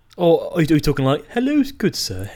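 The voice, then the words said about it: Put-on posh English accent. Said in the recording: “the proper English accent ... the cliche accent ... The politician's type speak, Rees-Mogg”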